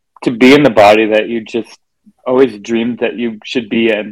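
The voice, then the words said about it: Emotional, choked-up speech. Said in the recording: “sorry, I'm going to get emotional.”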